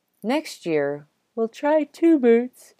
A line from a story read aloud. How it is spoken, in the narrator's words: yawned Aunt Lucy